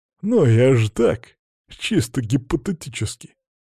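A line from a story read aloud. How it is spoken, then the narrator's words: Laughing reply. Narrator (Russian): Посмеялся в ответ первый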